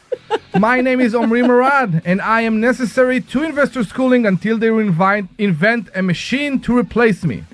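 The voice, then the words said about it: Immigrant's foreign accent. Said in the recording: “this accent is real ... presented by an immigrant”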